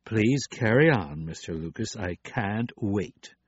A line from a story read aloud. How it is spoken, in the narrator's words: The dean said sarcastically